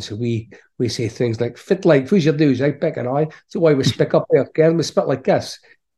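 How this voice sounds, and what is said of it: Scottish Aberdeen Doric accent. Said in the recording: “my accent, I'm from Aberdeen in Scotland, and I say, well, we've got a whole thing called the Doric language in Aberdeen”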